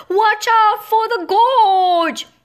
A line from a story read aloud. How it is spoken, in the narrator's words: shouted